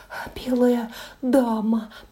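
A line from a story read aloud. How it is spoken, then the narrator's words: Terrified whisper. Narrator (Russian): прошептал он в ужасе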